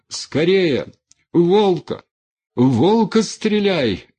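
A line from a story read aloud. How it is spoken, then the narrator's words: Yelling. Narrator (Russian): орал он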